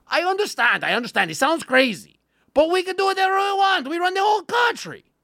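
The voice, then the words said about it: Put-on German accent sounding Russian. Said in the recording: “they sound vaguely Russian ... Methed out Germans sound like Russians ... I'm doing a perfect accent”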